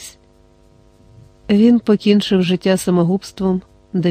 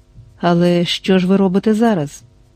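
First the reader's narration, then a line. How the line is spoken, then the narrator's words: Gentle question. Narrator (Ukrainian): лагідно спитав Квін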